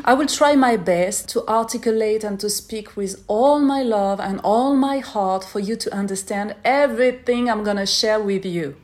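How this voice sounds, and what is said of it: French-accented English. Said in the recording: “I'm a French girl. That's why you're gonna notice this amazing accent. Yes, très français.”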